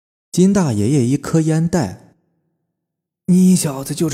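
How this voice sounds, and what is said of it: Usual voice. Nothing is said of it.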